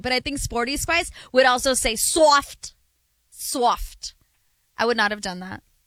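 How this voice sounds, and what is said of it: Failed British accent, sounds Midwestern. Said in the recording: “an attempt at a British accent? No, not at all ... I can't do a British accent ... I sound more soft. Like Northeast ... Sounds like my friend Lauren from Michigan”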